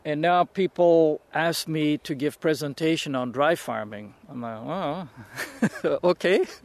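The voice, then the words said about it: European accent. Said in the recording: “It's that guy from Europe... He's got a weird accent”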